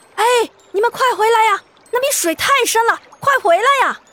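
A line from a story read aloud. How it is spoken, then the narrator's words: Shouting. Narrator (Chinese): 他妈妈喊道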